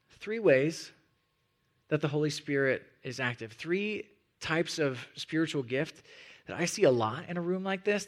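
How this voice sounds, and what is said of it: Hoarse, fading voice. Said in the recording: “I'm totally losing my voice. I was sick earlier this week, and it's coming through.”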